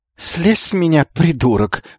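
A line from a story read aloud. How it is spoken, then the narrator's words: Hoarse, familiar voice. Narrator (Russian): прохрипел враг удивительно знакомым голосом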